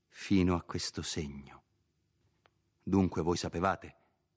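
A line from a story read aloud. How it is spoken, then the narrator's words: Plain. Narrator (Italian): disse Renzo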